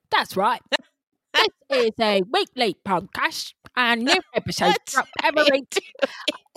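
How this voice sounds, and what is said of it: Put-on Harry Potter style accent. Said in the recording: “I've been reading Harry Potter every night with my kids and I've been working on my accent.”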